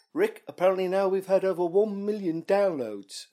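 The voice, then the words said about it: Good impression of Stephen Merchant. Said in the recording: “Steve Merchant, who co-wrote The Office with him, says at one point ... That was quite a good impression.”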